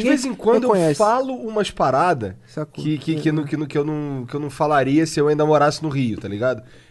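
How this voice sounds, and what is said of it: Carioca Rio de Janeiro accent. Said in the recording (Portuguese): “carioca perde o sotaque em dois segundos. Como é que tu não perdeu?”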